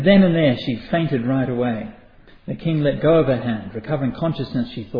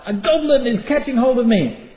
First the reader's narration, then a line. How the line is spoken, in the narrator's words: When she saw her face, she cried out